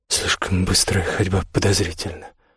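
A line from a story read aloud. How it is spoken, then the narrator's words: Muttered. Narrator (Russian): пробормотал он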